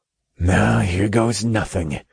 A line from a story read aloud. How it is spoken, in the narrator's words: I muttered to myself